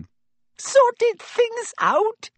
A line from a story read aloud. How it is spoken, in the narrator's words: squealed Pettigrew